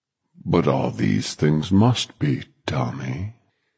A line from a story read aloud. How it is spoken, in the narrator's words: Flagg said gently